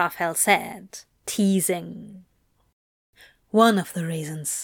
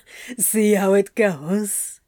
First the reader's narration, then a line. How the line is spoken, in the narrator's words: Crowley laughed